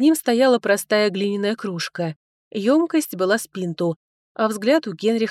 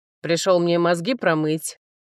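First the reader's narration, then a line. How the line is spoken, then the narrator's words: Asked gloomily. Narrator (Russian): мрачно спросил Генрих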